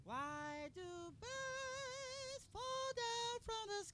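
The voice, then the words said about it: Sung in falsetto. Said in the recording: “hit a little falsetto... That's falsetto.”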